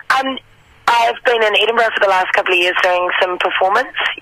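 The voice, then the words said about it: New Zealand accent. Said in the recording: “the accent is 100% Kiwi”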